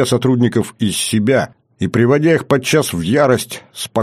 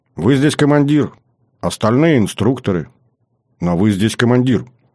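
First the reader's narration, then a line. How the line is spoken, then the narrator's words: Calm, unservile young woman. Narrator (Russian): Девушка спокойно, абсолютно без подобострастия ответила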